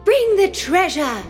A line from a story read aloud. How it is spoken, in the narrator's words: She called out